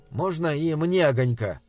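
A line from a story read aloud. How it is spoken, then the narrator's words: Plain question. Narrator (Russian): спросил я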